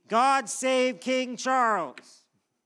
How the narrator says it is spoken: all the people gathered responded loudly

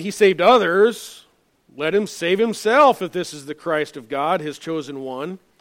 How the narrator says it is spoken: rulers sneering at Jesus, saying

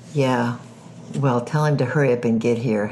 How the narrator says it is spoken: Helen growled

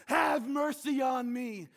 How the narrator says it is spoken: a single, blind, broke, joke, beggar in your town who cries out to God

